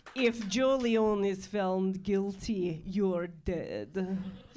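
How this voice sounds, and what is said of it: Put-on movie-villain foreign accent. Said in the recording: “Uzbekistan ... It's a good attempt ... You just did your Taken terrorist accent”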